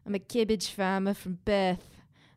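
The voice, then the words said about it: Strong put-on Australian accent. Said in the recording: “It's my Australian accent. ... It was strong. ... I don't know if I would qualify that as good.”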